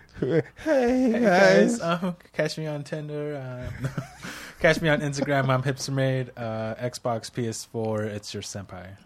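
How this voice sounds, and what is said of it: Nervous-sounding voice. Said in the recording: “You sound like a nervous guy. ... You sound like a nervous guy at a speed dating.”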